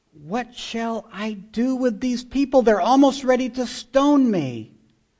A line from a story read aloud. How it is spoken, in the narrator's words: Moses cried out to the Lord, saying